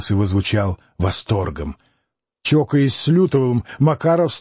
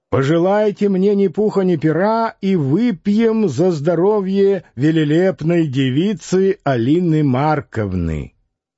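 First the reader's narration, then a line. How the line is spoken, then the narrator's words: Flushed shouting. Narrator (Russian): он, покраснев, кричал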